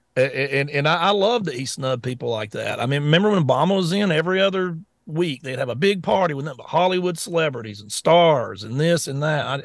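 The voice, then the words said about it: Scruffy Southern American accent. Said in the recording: “my old scruffy Southern accent voice”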